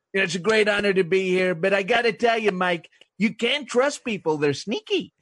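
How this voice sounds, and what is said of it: Squeaky caricatured politician impression. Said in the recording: “Trump ... make him a sort of even more of a caricature ... I sort of add different noises ... quite kind of squeaky in his voice”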